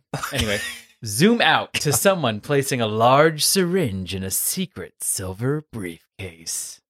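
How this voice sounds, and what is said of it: Low, deepening mysterious narrator voice. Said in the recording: “You get lower and lower when you do that voice. ... Because it's mysterious. It's like the Unsolved Mysteries guy, but not as like Northern New England.”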